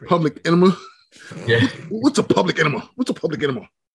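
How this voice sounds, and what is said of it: Good impression of a character. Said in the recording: “You do a pretty good impression.”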